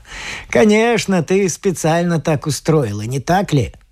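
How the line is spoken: Chuckling. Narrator (Russian): хохотнул

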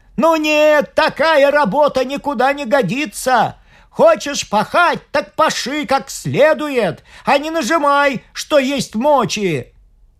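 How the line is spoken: Exasperated shout. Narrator (Russian): Не выдержал тут крестьянин и крикнул

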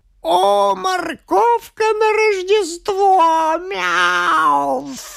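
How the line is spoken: Moaning kitten. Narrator (Russian): Застонал котенок

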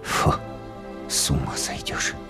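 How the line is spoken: Whisper. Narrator (Russian): прошептал он

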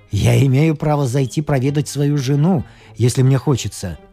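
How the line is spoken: Calm remark. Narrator (Russian): спокойно заметил Джордж

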